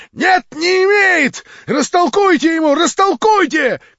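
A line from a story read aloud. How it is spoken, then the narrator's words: Shouting. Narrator (Russian): кричал Гаганов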